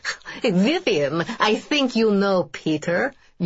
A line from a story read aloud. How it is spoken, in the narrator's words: Yuri says, and starts laughing, a crazy manic laugh